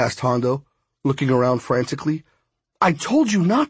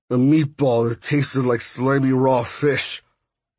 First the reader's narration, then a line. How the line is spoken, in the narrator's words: he answered in a slurred voice